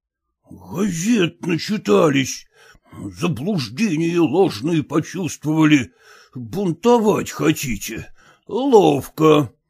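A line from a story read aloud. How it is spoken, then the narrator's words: Hoarse muttering. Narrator (Russian): хриплым голосом бормотал Зваров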